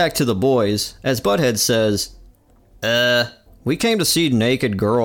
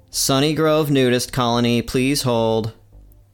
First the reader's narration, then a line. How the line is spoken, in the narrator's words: in a dull tone says